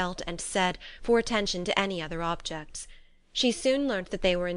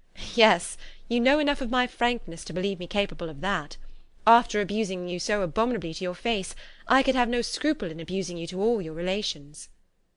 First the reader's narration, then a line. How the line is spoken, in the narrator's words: Elizabeth laughed as she replied